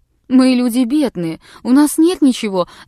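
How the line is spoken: Whimpering. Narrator (Russian): захныкала она

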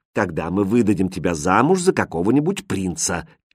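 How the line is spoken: Quiet reply, queen. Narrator (Russian): тихо ответила королева

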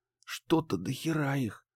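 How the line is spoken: Whispered. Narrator (Russian): шепнула Банши

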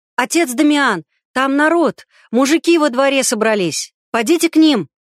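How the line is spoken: Ringing shout, young boy. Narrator (Russian): Звонко на всю церковь крикнул влетевший с улицы белобрысый паренек в черном стихаре

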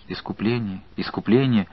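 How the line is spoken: Uncertain group whisper. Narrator (Russian): шептали неуверенно остальные

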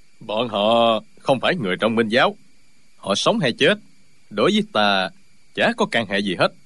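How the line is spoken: Cold. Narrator (Vietnamese): Hồ Thanh Ngưu lạnh lùng nói

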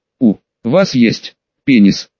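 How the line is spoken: Embarrassed reluctant forced words. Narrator (Russian): Девочка помялась и покраснела выдавила из себя

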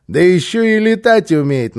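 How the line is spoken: Mocking. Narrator (Russian): насмешливо подхватил

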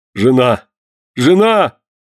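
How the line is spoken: Confused defeated shout. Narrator (Russian): закричал растерявшийся побежденный Карл

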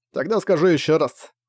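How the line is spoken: Snorting. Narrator (Russian): фыркнул Зак

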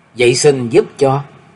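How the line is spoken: Woman, smiling. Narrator (Vietnamese): cô mỉm cười nói

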